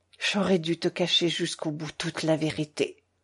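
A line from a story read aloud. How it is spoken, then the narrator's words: Stammered. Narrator (French): balbutia Catherine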